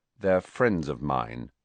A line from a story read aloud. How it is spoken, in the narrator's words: said Harry coldly